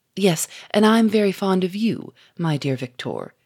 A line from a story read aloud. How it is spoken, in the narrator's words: said Lupin, in a coaxing tone